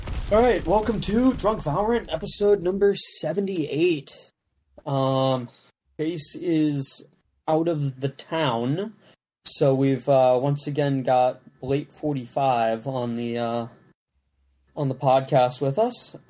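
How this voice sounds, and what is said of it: Flat, tired deadpan voice. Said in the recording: “I'm very incredibly hungover, so please excuse my deadpan voice.”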